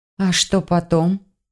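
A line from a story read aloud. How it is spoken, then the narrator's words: Uncertain question. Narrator (Russian): неуверенно спросила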